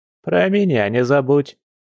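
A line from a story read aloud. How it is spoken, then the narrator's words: Cheerful old woman. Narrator (Russian): весело произнесла баба Эля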